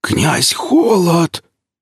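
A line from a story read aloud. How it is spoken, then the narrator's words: Terrified wheeze. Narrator (Russian): в ужасе прохрипел он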